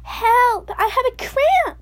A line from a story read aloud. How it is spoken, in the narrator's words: Suddenly she cried